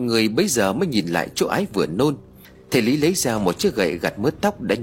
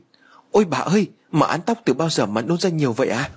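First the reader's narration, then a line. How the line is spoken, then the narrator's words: Frightened scream. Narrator (Vietnamese): Con Mận sợ hãi hét lên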